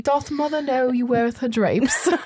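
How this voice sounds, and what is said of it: Poor put-on British accent. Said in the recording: “my British accent is not very good ... No, it's terrible.”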